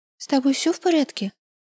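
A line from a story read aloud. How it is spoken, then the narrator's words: Small voice nearby. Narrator (Russian): Раздался рядом голосок Франциски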